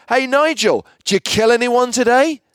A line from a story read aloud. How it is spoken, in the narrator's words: Sandy, who was now a little bit merry, shouted out really loudly